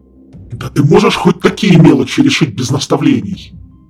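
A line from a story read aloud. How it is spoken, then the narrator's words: Roar. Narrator (Russian): Взревел Харган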